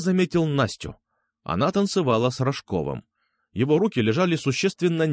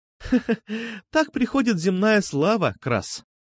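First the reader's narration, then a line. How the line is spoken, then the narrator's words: Laughing. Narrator (Russian): Засмеялась София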